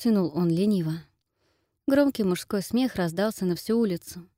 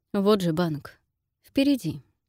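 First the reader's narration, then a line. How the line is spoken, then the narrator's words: Calm with steely edge. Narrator (Russian): произнес он спокойно, но в голосе послышались стальные нотки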